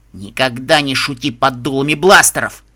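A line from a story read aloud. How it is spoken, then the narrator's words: Stern hissed whisper. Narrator (Russian): прошипел он строгим шепотом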